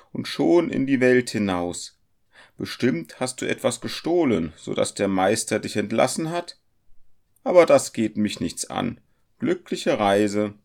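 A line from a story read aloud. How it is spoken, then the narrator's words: Woman exclaiming. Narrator (German): rief sie beim Anblick des zarten Jungen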